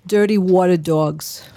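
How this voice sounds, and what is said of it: Put-on New York accent. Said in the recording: “With a New York accent.”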